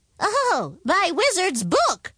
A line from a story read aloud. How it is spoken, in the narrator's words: exclaimed the wizard